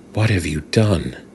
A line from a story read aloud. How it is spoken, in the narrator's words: she whispered